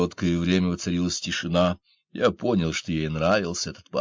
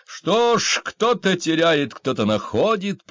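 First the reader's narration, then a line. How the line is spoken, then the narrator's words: Shouted. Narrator (Russian): прокричала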